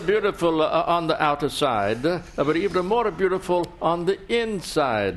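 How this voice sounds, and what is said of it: Put-on Italian accent, Berlusconi impression. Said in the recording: “brilliant and authentic Italian accent”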